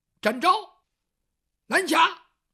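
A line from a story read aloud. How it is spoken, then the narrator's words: Shouting. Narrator (Chinese): 二爷喊了声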